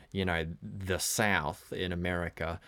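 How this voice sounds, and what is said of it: Poor put-on Southern US accent. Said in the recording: “That was a terrible accent for the South.”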